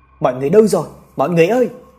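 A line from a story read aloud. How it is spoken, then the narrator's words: Two voices shouting. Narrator (Vietnamese): Trọng và ba mình cùng hét lên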